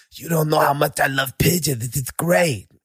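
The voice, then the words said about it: Imitates another person's voice. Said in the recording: “if I close my eyes, it's Mike Tyson, bro. Hey, that's how good your impression is.”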